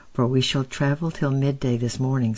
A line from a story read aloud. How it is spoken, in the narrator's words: said Gabriel